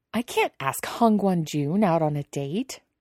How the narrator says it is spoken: Wei Ying scoffs

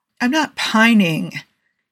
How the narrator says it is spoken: Jim whined

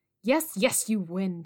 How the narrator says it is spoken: she answered hastily

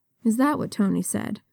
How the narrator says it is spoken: Natasha murmured

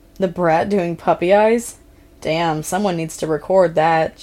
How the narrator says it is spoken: Jason chuckled

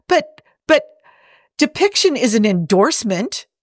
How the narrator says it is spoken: Jim sputtered

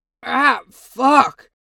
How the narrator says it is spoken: gasped

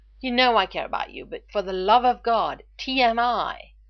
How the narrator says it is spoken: Foreman finally cried

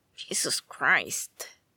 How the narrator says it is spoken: Andrew mumbled

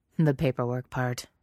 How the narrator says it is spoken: Jack says dryly

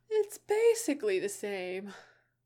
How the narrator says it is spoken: Enid said through a yawn

